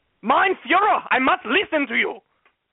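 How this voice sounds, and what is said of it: Deliberately bad put-on German accent. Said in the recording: “That's a terrible German accent.”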